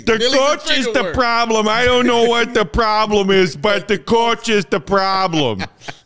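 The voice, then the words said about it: Impersonating a Chicago sports fan. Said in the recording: “That's me being a Chicago fan in ... impersonating a Chicago fan.”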